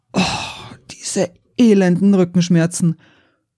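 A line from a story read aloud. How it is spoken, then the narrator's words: Groaning. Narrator (German): Stöhnend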